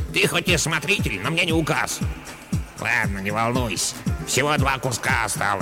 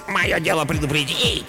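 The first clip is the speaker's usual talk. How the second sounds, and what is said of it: Grumpy mocking imitation. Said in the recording (Russian): “сварливо передразнила”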